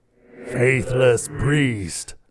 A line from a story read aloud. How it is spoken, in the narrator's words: Belial roared